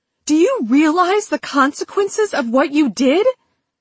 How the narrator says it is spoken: Tessa asked, her voice several octaves higher than normal

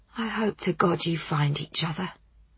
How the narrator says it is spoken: she said softly

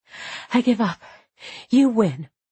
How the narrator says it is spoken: said while panting

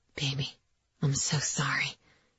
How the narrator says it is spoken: he whispered

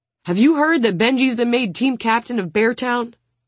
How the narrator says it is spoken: the huge forward roars

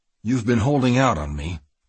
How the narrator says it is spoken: Kiefer said stiffly

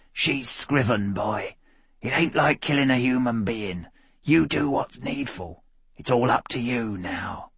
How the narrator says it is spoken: Bagman Creech appeared as a cheap blue ghost, whispering

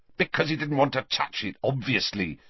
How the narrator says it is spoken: said Harry angrily

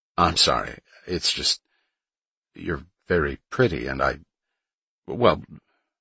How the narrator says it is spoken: he stammered like a teenager

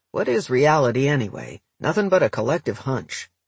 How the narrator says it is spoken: a deceptively wise bag lady named Trudy mutters

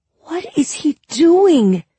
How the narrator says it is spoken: I moaned

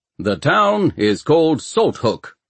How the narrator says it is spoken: boomed the voice of the announcer

